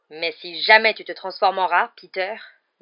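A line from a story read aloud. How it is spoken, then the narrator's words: Growled. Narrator (French): grogna Black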